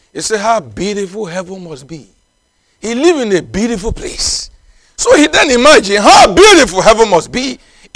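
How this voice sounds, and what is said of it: Speaker's own accented English. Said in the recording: “I hope you are understanding my accent.”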